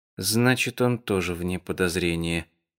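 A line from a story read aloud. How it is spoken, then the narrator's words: Disappointed mutter. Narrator (Russian): разочарованно пробормотала Али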